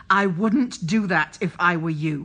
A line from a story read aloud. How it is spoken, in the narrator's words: he snarled